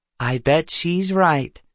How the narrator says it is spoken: Kendra said sweetly

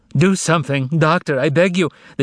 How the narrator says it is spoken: the young woman cried hysterically

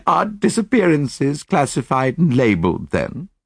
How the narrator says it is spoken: I laughed

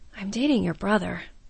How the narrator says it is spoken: Kalina said quietly

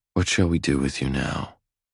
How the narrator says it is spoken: I murmur

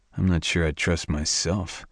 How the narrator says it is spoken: I muttered

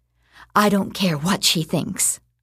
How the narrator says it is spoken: I whispered

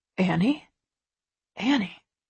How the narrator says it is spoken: he whispers

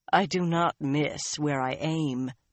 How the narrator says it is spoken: Birgitta said dryly

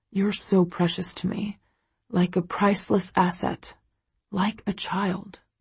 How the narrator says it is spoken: he whispers, a somber, reverent expression on his face

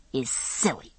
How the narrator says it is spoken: said Brianna through her teeth

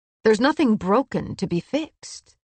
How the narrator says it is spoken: he said fiercely

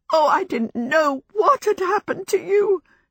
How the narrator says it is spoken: she sobbed

